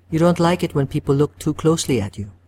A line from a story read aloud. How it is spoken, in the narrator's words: she says